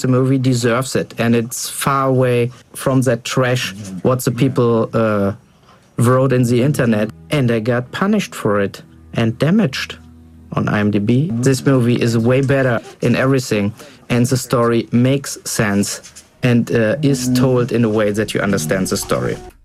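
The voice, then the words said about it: German accent, possibly Bavarian. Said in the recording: “There's a certain element of fun in just listening to a German accent ... Is that a real German accent? ... I think so ... like Bavarian”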